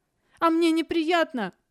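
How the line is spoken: Shouted. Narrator (Russian): выкрикнула

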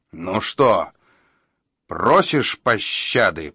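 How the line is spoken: Growl. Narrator (Russian): прорычал Тан

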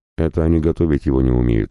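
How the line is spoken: Snorting remark. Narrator (Russian): хмыкнул

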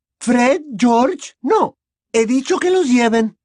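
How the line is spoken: Shouted. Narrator (Spanish): gritó la señora Weasley

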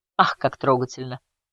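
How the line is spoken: Scoffing. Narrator (Russian): хмыкнул Говард

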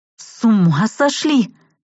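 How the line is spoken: Disbelieving hoarse rasp. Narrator (Russian): прохрипела отказываясь верить в происходящее

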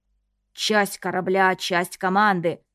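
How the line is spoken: Fake hoarse pirate voice. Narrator (Russian): притворно хрипло повторил Стас, стараясь сойти за пирата из старой кинофраншизы

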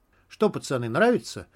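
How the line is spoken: Cheerful. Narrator (Russian): весело спросил редактор

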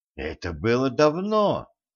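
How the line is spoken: Gentle objection. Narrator (Russian): мягко возразил Николай

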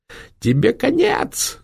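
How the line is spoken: Yell with shrill laughter. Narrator (Russian): заорала Жанна и визгливо захохотала

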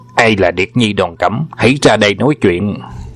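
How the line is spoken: Arrogant loud call. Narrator (Vietnamese): vênh váo đi đến bên vọng tinh đài lớn tiếng gọi

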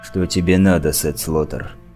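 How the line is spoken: Cold question. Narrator (Russian): Холодно спросил Тихоня

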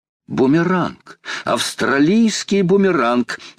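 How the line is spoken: Excited exclamation. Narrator (Russian): воскликнул Паганель

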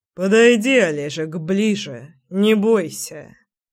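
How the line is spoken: Through clenched teeth. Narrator (Russian): процедил Заверин

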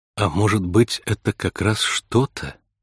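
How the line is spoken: Gentle suggestion. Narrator (Russian): мягко предположила Кейси

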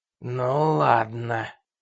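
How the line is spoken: Hissed. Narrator (Russian): прошипел Рой

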